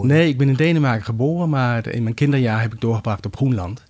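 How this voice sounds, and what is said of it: Non-native Danish accent in Dutch. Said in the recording (Dutch): “je hoort misschien aan mijn accent dat ik niet autochtoon Nederlander ben”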